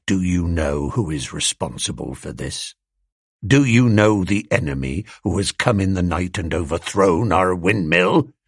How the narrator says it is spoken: he said quietly

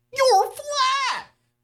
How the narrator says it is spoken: Julie shrieks

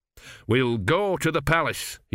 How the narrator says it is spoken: he said firmly

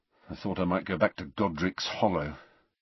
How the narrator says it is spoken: Harry muttered

